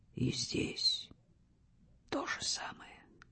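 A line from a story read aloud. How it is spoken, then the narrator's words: Whisper. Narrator (Russian): шепнул он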